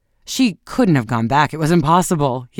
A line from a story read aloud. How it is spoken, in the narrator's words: he exclaimed